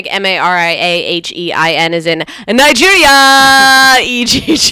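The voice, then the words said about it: Oprah-style twang. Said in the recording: “you put a little Oprah twang on that.”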